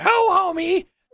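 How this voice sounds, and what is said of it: Cartoon character impression. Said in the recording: “my Marge impersonation.”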